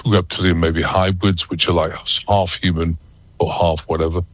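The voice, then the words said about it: British accent. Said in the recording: “I'm still got a British accent”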